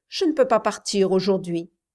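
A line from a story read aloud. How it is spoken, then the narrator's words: Determined tone. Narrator (French): dit-elle d'un ton décidé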